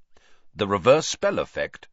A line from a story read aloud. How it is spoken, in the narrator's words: said Sirius sharply